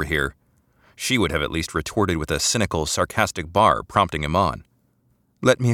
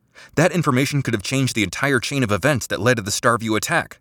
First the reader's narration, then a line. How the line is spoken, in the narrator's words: shouted